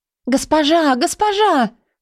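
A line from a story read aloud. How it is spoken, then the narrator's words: Excited shout. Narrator (Russian): взволнованно закричала Шадия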